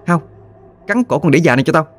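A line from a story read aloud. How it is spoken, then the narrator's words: Girl's sudden shout. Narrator (Vietnamese): Chợt giọng cô gái quát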